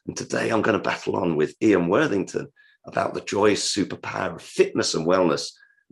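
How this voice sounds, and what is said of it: Hoarse, sore-throat voice. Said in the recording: “I've got a bit of a sore throat, which is why my voice is maybe different from earlier podcasts”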